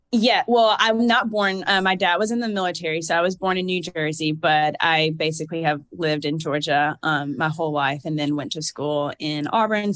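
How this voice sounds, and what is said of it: Slight Southern twang. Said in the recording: “is the accent that I hear an accent? ... So it's from Georgia ... this little bit of like this southern draw ... a little twang ... A little twang.”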